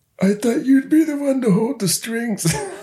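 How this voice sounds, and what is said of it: Godfather character impression, not very good. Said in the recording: “I've got to be Marlon Brando in The Godfather ... I don't do a very good Godfather impression, ... No, it's not working. It's not working.”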